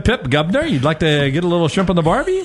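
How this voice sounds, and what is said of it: Put-on 1920s Australian accent. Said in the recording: “Can anyone do an Australian accent?... perfect... Awesome Australian... No, it's 1920s Australian.”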